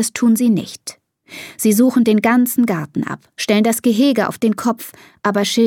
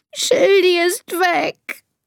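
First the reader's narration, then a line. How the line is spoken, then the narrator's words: Sobbing. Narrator (German): schluchzt Elisa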